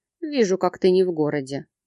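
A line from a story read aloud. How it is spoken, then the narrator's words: Young man chuckling. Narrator (Russian): хохотнул парень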